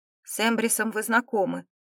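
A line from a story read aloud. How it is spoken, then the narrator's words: Calm. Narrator (Russian): спокойно сказал лорд Мадели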